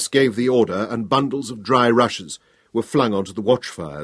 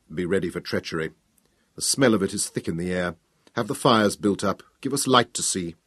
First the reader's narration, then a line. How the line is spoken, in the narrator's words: under his breath he told Kratos